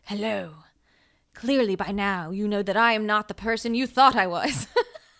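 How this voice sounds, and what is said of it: Demonic villain voice. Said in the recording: “She's talking in a demonic voice.”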